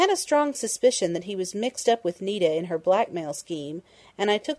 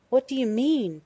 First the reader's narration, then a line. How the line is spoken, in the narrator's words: Penny gasped, but she was already calmer